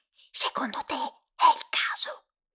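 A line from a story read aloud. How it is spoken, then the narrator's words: Whispered. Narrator (Italian): sussurrai a Nora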